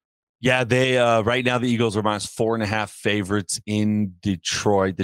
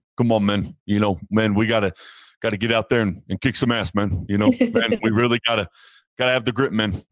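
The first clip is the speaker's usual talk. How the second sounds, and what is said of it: Imitates another person's voice. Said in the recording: “my best Dan Campbell impersonation”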